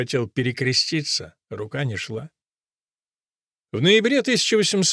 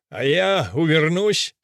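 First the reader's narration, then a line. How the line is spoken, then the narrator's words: Suddenly loud. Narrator (Russian): сказал вдруг громко Грибоедов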